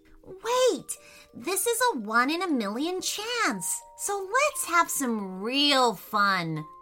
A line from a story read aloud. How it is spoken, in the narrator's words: said Remi excitedly